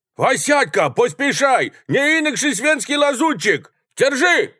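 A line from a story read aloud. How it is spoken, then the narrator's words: Shouted. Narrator (Russian): закричал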